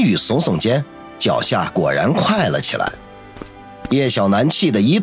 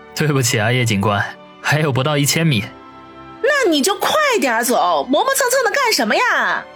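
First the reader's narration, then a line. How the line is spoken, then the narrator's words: Angry. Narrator (Chinese): 叶小楠怒道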